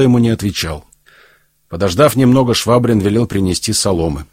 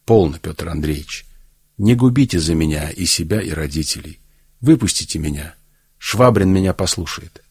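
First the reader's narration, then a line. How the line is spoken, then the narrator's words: Quiet. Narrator (Russian): Марья Ивановна сказала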